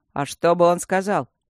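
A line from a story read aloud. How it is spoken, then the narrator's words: Scoffing snort. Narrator (Russian): фыркнул Мартин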